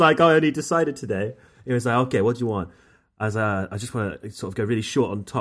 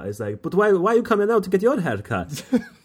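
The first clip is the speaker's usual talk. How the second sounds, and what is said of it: Put-on accent quoting barber. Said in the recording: “don't do the accent. Don't do the accent ... Carry on with the accent then”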